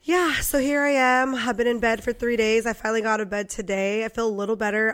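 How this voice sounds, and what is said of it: Congested, raspy voice. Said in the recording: “I'm kind of congested, as you guys might be able to tell. ... My voice is, you know, probably raspier than normal.”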